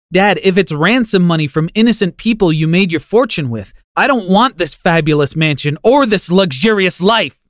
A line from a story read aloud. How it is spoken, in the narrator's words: I screamed